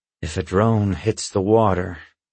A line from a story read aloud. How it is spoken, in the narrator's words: he explains gloomily